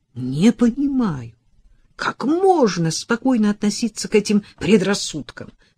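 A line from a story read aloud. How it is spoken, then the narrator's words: Desperate exclamation. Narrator (Russian): с отчаянием воскликнул он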